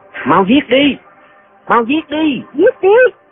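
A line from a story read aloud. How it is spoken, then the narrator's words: Shouting together. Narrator (Vietnamese): Lệnh Hồ Xuân và Doanh Doanh cùng la lên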